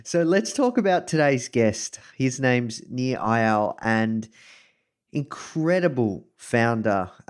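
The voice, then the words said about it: Australian accent. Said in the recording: “coming to you live from Melbourne, Australia. You can probably tell this from my accent.”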